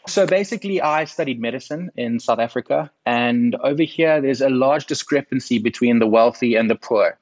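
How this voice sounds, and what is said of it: South African accent. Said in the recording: “my accent from sunny South Africa”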